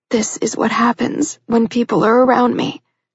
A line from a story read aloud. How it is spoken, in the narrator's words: she said in a raspy voice